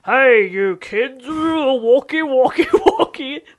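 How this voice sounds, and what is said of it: Impression of Broden Kelly. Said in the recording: “my Broden impression ... That's your impression of him”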